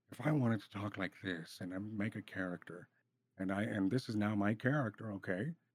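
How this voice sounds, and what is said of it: Imitates another person's voice. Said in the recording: “I was trying to do Nick Cage there ... that definitely was a new character voice”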